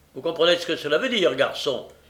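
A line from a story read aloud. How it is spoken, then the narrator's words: Curt stranger. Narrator (French): dit sèchement l'étranger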